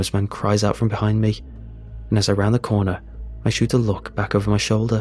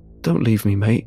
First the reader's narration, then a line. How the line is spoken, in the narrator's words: the man pleads in a hoarse voice